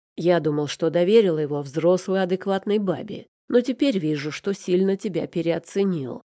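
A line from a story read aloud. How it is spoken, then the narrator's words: Growling. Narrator (Russian): зарычал я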